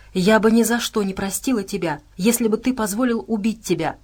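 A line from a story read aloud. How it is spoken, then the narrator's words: Plain. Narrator (Russian): сказала она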